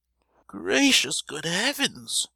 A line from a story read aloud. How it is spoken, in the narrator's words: cried the latter, trembling like a leaflet with horror